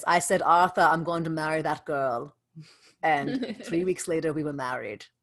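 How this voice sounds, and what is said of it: Put-on German accent. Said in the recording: “great German accent.”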